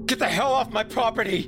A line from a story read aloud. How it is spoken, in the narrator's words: I screamed